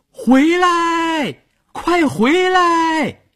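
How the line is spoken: Shouting into distance. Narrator (Chinese): 邵月站在水中，朝着快到河中央的船喊

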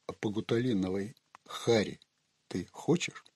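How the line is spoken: Quiet, earnest menace. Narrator (Russian): Кряж проникновенно и тихо сказал Ганнибалу

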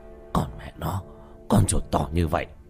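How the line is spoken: Stammering. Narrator (Vietnamese): Hoa Thanh lắp bắp mãi

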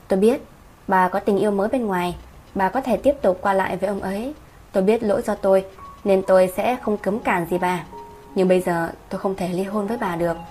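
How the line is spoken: Calm, gentle. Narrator (Vietnamese): Ông bình tĩnh, nhẹ nhàng nói

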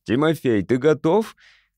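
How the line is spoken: Shouting. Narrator (Russian): крикнул папа

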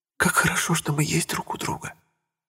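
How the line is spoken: Whispered. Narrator (Russian): прошептала она

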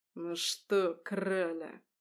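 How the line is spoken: Hissing in face. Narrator (Russian): прошипел он мне в лицо

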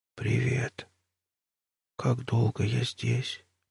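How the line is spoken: Whispered. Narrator (Russian): прошептал Батлер

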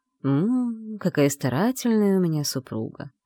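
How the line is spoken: Silky purr near ear. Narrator (Russian): мурлыкнул над ухом вкрадчивый голос

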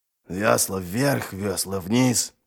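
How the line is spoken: Grumbling. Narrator (Russian): проворчал Ральф

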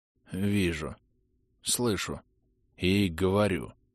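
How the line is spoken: Muttering. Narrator (Russian): пробормотал Арлекин

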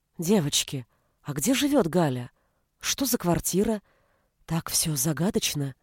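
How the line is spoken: Whispered question. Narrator (Russian): спросила шепотом Снежана

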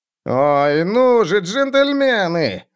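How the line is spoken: Whining. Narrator (Russian): заскулил Герт им вслед

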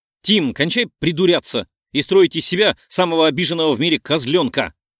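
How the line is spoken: Exasperated snap. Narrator (Russian): Не выдержала и рявкнула

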